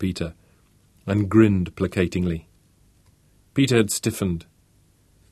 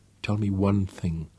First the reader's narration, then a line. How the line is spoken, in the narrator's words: Peter hissed